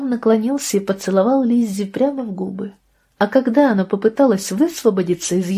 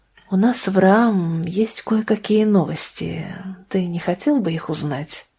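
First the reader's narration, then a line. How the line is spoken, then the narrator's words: Quiet. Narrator (Russian): тихо сказала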